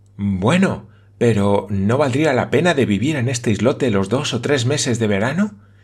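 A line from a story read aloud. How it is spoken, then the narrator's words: Young woman exclaiming. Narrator (Spanish): exclamó la señorita Campbell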